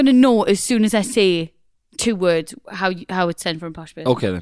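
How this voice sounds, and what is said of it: Usual voice. Nothing is said of it.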